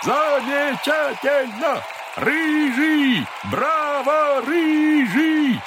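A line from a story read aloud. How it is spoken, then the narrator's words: Shouting. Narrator (Russian): закричал он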